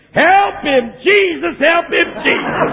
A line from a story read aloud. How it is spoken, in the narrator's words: some lady in the back started yelling